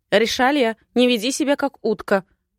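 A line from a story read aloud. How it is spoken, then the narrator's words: Mother's bark. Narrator (Russian): гаркнула мать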